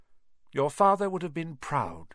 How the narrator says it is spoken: she said

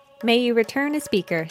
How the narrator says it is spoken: she says

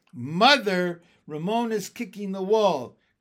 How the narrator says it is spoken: cried Tattletale Beezus

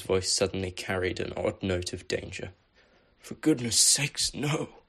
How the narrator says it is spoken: Dumbledore exclaimed, his own eyes welling slightly

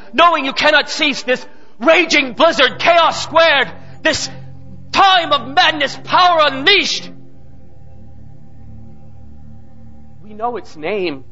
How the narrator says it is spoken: cried out a man

